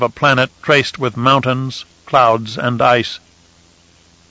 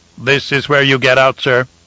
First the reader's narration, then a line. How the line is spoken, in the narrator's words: the robopilot announced in a synthesized voice